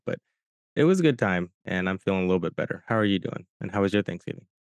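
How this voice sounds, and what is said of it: Sick, flu-affected voice. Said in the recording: “having the flu the whole week ... you might hear it in my voice, I'm still kind of dealing with it”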